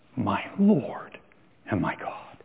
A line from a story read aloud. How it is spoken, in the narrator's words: he dropped to his knees and he whispered